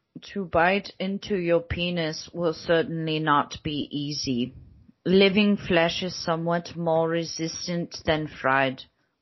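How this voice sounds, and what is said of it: Put-on British accent. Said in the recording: “I'm doing a British accent.”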